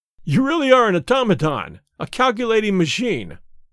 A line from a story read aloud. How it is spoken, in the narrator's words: I cried